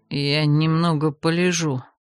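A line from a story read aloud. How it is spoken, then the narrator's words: Muttered. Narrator (Russian): пробормотал разбойник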